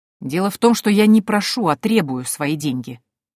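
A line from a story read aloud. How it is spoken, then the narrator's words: Menacing speech. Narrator (Russian): грозно произнесла я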